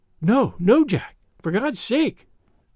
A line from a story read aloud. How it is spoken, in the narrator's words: she gasped, in uncontrollable emotion